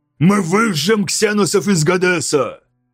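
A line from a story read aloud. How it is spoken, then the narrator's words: Shout. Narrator (Russian): крикнул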